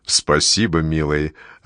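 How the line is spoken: Smoky, lordly bass. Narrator (Russian): отвечает Вера Зиновьевна прокуренным барственным басом

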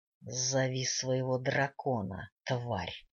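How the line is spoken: Commander hissing. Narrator (Russian): прошипел командир

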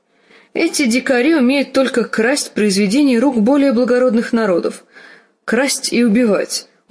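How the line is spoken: Loud laughter. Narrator (Russian): он расхохотался

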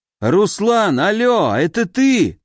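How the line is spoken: Shouting into phone. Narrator (Russian): заорал он в трубку

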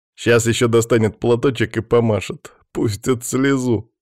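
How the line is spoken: Chuckling. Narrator (Russian): хохотнул Даниил

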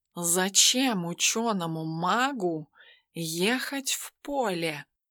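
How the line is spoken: Thoughtful drawl. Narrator (Russian): задумчиво протянул Тимофей

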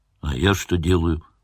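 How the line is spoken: Grumbling driver. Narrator (Russian): пробурчал водитель

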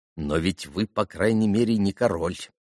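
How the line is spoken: Impulsive mutter. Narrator (Russian): пробормотал сразу не удержавшись Миусов

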